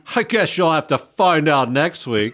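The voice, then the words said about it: Imitates another person's voice. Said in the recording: “That was almost like a John Wayne impersonation.”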